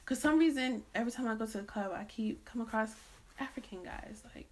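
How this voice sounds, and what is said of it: Thick non-American accent. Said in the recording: “Excuse my accent ... I can't say it the American way, like it's going to have a very thick accent on it”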